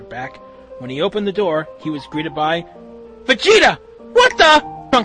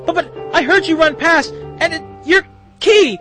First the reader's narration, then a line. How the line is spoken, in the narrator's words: Trunks stammered